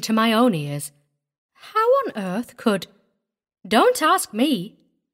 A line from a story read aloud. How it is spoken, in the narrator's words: Hetty said cheerfully